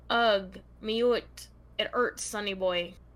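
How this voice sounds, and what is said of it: Put-on Scottish accent. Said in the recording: “this next part, I'm supposed to read in a Scottish accent”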